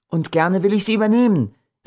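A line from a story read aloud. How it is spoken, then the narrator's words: Young girl's full voice calling. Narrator (German): rief wieder die volle Stimme des jungen Mädchens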